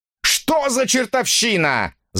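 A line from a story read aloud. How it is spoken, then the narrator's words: Shouted. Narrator (Russian): закричал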